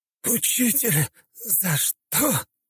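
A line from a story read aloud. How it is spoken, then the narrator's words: Wounded wheeze. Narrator (Russian): хрипел его ученик, зажимая окровавленное горло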